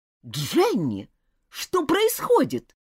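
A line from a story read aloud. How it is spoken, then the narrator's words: Irritated exclamation. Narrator (Russian): раздраженно воскликнула мисс Рейнджер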